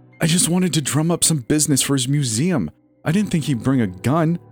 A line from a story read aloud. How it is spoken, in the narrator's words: Nola whined